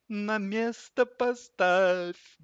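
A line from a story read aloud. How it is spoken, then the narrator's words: Sad singsong. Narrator (Russian): грустно пропели санки ему вслед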